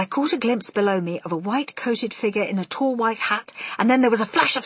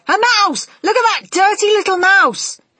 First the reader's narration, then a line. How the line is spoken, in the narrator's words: a man's voice yelling